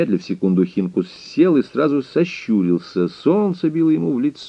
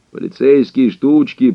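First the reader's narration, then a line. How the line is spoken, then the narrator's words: Bitter grumble. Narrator (Russian): проворчал с горечью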